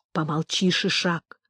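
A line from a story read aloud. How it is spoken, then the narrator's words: Whisper. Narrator (Russian): зашептал Орех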